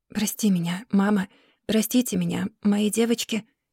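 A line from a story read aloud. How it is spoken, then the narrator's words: Whispering. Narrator (Russian): шептала она в темноту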